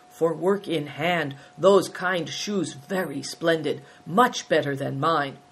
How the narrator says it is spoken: Batur murmured approvingly

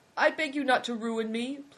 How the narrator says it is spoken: pleaded the man

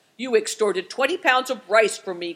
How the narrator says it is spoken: growled the man

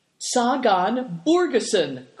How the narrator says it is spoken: cried Tolus

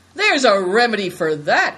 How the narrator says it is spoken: cried Good Fortune

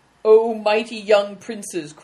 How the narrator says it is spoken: cried another

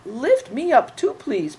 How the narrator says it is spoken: pleaded Big Tiger

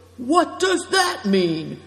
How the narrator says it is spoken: cried Greencoat, flaring up

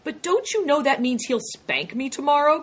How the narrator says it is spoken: cried Big Tiger

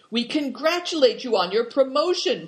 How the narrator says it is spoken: cried Big Tiger

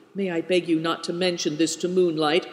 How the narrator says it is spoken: cried Gunchuk, alarmed

